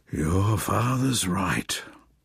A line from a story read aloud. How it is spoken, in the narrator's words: sighed the old bird